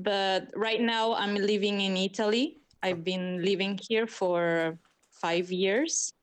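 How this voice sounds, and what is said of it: American Californian-sounding accent. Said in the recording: “you and Jess have a similar accent ... we have this Californian accent, I think American, I don't know”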